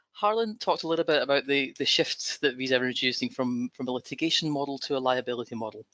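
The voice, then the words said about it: Speaker with noticeable accent. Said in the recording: “I'll apologize up front for my accent”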